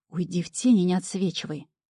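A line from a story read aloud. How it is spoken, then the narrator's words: Growled. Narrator (Russian): рыкнула я на горе переговорщика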